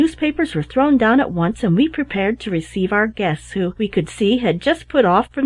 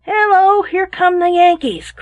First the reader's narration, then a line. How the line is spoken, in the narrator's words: cried the captain